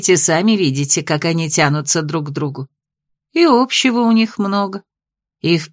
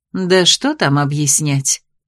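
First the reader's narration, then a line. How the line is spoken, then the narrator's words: Soft, smiling. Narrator (Russian): мягко улыбнулась травница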